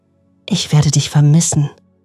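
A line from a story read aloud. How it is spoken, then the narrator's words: Tearful whisper. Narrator (German): flüsterte Hannah, während weitere Tränen über ihre Wangen liefen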